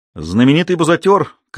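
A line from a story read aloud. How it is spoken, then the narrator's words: Shouted. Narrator (Russian): крикнул он Айку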